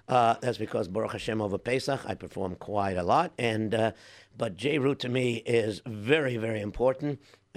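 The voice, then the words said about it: Hoarse, worn-out voice. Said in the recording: “my voice sounds a little bit hoarse ... my voice is a little bit shot”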